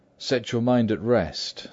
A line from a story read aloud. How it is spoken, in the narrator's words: says he